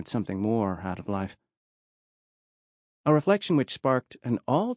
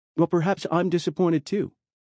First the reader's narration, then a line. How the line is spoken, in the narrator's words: snapped back without thinking